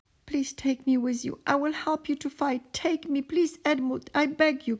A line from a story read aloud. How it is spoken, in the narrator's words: cried Jutek for all the platform to hear